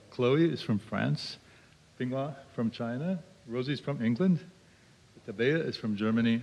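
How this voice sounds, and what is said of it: American English accent. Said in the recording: “I'm from America. You can tell from the accent.”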